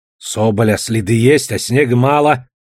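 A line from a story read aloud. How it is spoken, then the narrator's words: Grumbling. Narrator (Russian): ворчал Савоська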